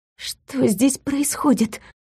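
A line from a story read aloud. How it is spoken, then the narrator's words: Whispered question. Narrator (Russian): шепотом спросила я у Глюка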